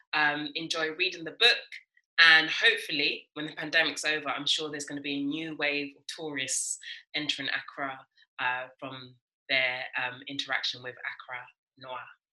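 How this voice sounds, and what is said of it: South London accent. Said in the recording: “My voice is not how you would hear it now, which is very much as typical South London accent.”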